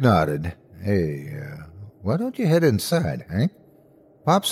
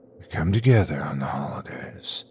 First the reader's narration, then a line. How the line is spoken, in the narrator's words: whispered